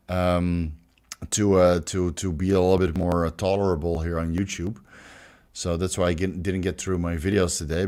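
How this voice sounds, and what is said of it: Strong Dutch accent in English. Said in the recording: “this horrible pronunciation and this horrible Dutch accent”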